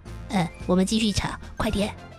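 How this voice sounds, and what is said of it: Speaking very quietly. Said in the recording (Chinese): “很小声的说”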